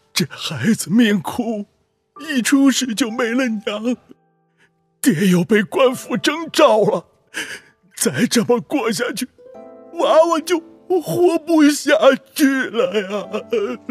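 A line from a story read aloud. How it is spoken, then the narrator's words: Choked-up old man. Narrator (Chinese): 老人……声音哽咽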